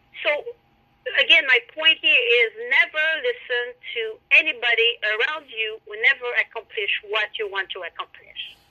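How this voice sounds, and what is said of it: Strong foreign accent in English. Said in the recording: “your accent is way too strong. ... your accent is so charming.”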